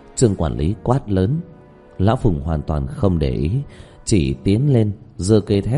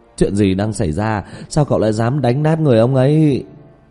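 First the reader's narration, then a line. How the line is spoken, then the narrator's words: Loud trembling shout. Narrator (Vietnamese): hét to run rẩy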